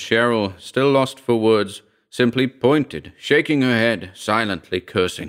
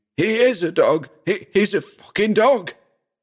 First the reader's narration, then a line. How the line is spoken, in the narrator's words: Pat fled, screaming